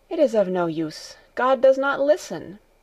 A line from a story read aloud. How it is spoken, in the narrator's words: Heidi went on, in an agitated voice